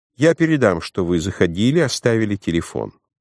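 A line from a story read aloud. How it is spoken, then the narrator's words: Cold. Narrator (Russian): Марта холодно сказала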